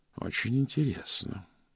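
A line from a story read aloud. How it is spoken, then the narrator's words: Muttered to himself. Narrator (Russian): пробормотал про себя мсье Пуаро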